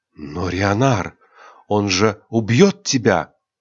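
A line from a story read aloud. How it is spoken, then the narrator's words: Frightened girl. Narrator (Russian): испуганно произнесла девушка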